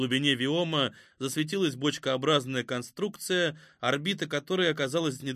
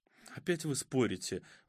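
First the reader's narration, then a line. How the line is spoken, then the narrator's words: Sighing. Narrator (Russian): вздохнула Катя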